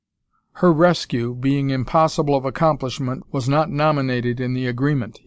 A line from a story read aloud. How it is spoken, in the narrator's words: said coldly